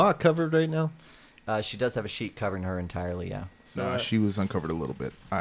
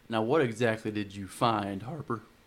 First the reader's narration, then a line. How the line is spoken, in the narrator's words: He's choking on his words